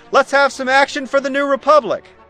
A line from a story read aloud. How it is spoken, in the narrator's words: I shout